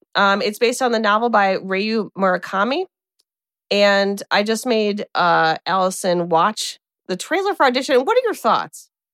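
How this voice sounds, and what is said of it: Flat Midwestern American accent. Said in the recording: “I have such a flat Midwestern accent”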